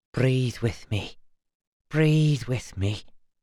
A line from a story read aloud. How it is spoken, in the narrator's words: she whispered